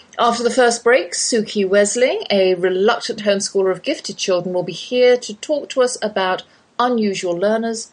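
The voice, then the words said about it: English Oxford accent. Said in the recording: “that's my English accent you're hearing. Though I've lived in the Lone Star State half my life, I can't shake the Oxford drawl.”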